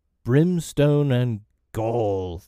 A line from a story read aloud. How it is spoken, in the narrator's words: thundered Hook